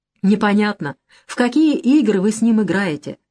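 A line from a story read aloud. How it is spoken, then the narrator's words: Plain. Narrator (Russian): сказал Генка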